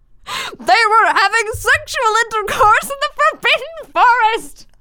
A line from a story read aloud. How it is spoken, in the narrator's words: He yelled in a furious voice